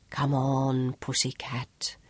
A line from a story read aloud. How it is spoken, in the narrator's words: Sean whispered like a lover